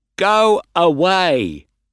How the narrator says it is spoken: he shouted

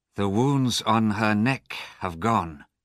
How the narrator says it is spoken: he said

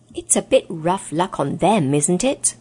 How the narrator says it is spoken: said Scrub

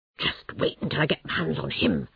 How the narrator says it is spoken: Toad whispered angrily

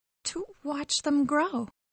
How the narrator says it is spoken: whispered Mary

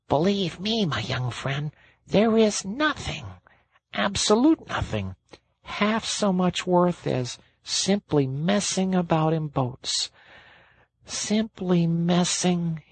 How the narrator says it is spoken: he went on dreamily

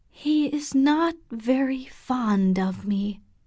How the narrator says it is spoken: she said slowly

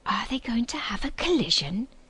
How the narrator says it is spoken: he asked in an awestruck voice

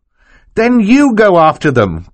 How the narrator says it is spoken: Klaus cried

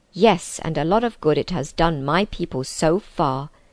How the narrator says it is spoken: snapped Nikobrick

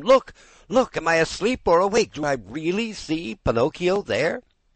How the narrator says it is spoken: yelling wildly

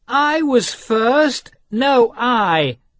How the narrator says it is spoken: cried the children

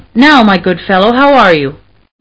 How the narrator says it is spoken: he asked

